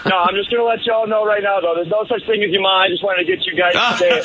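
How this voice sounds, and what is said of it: Fake Boston accent. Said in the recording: “I'm just here fabricating my Boston accent.”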